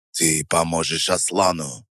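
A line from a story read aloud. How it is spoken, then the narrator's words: Icy interruption. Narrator (Russian): Ледяным тоном перебил его Алиев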